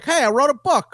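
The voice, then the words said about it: Good John Madden impression. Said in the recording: “that's a good impression, actually.”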